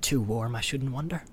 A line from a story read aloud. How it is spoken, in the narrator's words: muttered Sam to Frodo